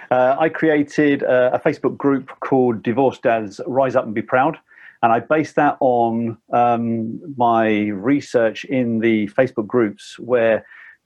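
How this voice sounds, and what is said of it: British accent. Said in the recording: “a Brit, obviously, from the accent.”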